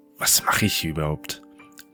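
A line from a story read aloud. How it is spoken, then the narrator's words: Angry hiss. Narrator (German): zischt sie wütend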